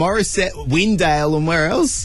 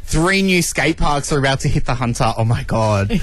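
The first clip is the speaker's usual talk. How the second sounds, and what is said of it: Sarcastic excited tone. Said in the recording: “I'm being sarcastic.”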